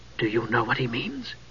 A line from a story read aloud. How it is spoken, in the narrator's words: Palin asked in a hushed voice